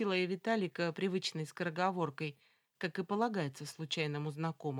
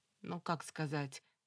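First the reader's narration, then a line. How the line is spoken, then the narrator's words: Gloomy mumble. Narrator (Russian): невесело промямлил Виталий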